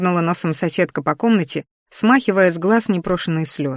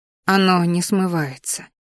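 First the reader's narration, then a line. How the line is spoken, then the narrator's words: Loud sigh. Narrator (Russian): шумно вздохнула Ди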